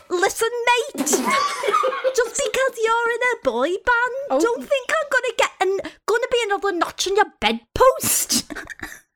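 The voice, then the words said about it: Attempted Scouse accent, drifting. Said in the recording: “Could you do that again in a Scouse accent? ... try and do her accent ... it started out really good. The listen, mate ... that was good ... it went really McCartney after a while”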